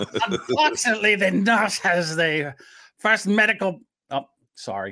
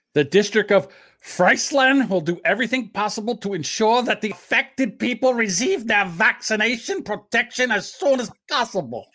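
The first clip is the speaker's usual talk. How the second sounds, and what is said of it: Put-on accent, done fairly well. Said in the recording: “Now, that's one accent you don't do too bad at there.”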